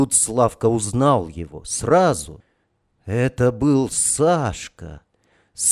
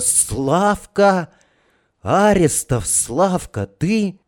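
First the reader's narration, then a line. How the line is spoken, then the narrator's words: Soft cry. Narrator (Russian): вскрикнул негромко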